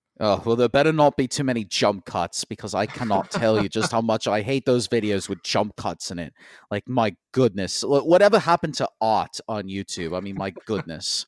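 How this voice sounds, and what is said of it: Imitates a British YouTuber's voice. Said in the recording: “my I Hate Everything impression ... this is like the second British person that I had to do in a row”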